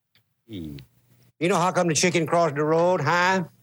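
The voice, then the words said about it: Over-the-top put-on Cajun accent. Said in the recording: “his impersonation, if you will, of a Cajun is a little bit over the top... the accent, everything about it was over the top”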